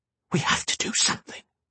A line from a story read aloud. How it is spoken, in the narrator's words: she whispered